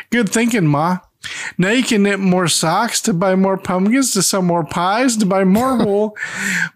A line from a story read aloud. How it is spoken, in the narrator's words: Emmett laughs and says